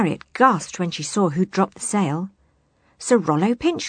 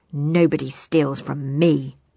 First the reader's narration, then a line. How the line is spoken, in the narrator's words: he snarled